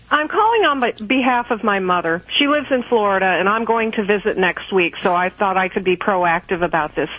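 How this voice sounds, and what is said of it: Kentucky accent. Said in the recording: “Kentucky. I just love that accent.”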